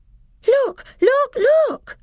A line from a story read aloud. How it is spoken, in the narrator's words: cried Lucy